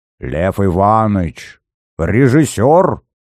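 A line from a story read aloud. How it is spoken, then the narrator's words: Surprised old woman's snort. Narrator (Russian): Дивясь неосведомленности Зверева, хмыкнула бабка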